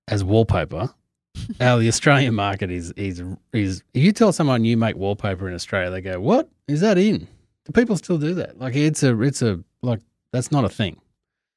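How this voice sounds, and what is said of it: Australian accent. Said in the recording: “I've also got an accent which probably keeps people on the phone”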